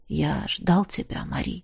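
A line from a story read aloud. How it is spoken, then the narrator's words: Quiet. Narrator (Russian): так же тихо сказал Кар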